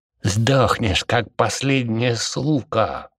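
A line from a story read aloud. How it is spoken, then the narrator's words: Confident, through gritted teeth. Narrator (Russian): сквозь зубы процедил он, уверенный, что еще немного, и противник будет сломлен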